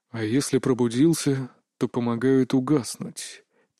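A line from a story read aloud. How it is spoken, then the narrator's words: Very quiet question. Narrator (Russian): Тихо-тихо спросил Тан Аленбор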